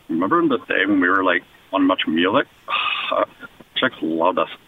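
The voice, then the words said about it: Impression of Butthead cartoon voice. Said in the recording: “used to be able to do a good impression ... Some Butthead”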